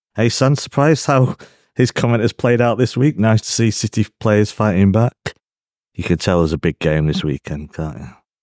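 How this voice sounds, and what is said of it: Richard Keys impression, not very good. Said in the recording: “do my best Richard Keys impression there. Not very good.”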